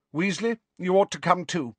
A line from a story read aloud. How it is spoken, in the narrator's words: said Professor McGonagall